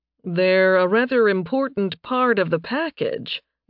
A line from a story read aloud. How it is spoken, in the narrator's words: Nathan said dryly